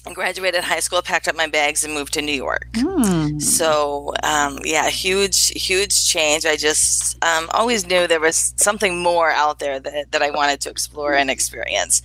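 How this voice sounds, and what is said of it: Slight South Dakota accent. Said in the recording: “born and raised in a very small town in South Dakota. You might hear the accent a little bit.”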